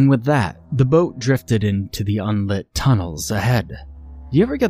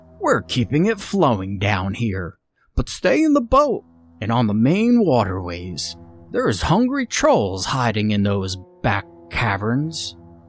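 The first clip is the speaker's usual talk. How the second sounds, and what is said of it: Put-on Western accent. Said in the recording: “it announced in its usual Western accent.”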